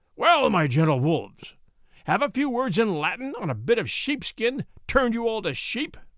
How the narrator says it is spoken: the baron roared

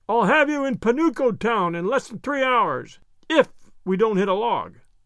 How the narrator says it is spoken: Peter shouted in Wimple's ear

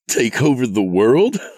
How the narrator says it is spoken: He laughed at the absurdity of it

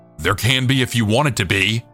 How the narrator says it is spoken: he thundered back

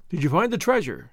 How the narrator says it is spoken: the brigand asked eagerly

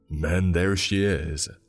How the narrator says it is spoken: he boomed

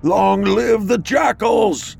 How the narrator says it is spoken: He howls to the moon above and declares

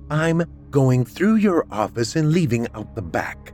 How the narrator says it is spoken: a woman named Teresa said firmly, daring him to contradict her

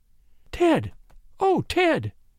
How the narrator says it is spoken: she gasped

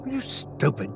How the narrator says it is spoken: Chrissy hissed

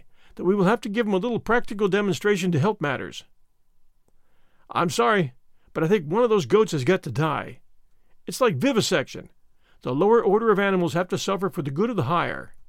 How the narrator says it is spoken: said Stedman, with a sigh

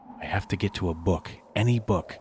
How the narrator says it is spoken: Max muttered feverishly to himself

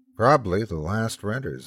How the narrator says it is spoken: said

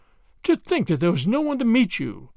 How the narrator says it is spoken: exclaimed William George

